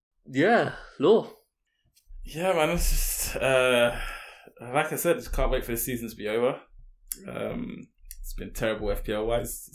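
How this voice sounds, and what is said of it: Tired, low-energy voice. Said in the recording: “you can hear it in my voice. I'm tired. ... he was full of energy before the podcast started ... hear the perkiness in my voice, the happiness, and it's just been replaced.”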